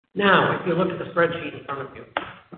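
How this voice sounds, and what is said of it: Talking very fast, excited. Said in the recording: “I'm sorry I'm talking too fast, but I can't help it. I'm excited today.”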